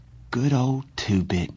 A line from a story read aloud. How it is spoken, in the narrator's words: he said in a quavering voice